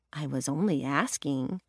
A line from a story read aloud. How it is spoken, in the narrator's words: Annalena mumbled